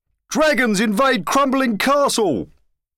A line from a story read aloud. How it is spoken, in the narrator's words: shouted the news crier